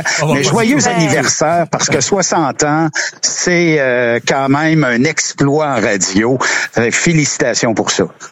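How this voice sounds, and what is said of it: Québécois French accent. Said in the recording (French): “J'espère que mon accent est pas trop québécois ... l'accent québécois”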